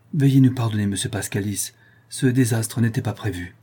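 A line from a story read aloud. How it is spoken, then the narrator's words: Apologetic tone. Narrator (French): ajouta-t-elle d'un ton désolé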